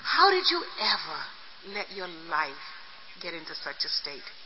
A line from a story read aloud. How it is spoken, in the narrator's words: The young nun looked down at me quietly and she said